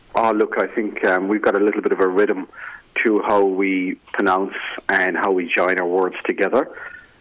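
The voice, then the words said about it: Irish accent. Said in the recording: “Your accent is a lot, it's a lot less broad than it was when you first hit our shores... this Irish accent”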